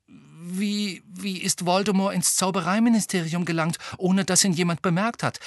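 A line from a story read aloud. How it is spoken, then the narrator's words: Fairly anxious voice. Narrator (German): sagte Hermine mit ziemlich ängstlicher Stimme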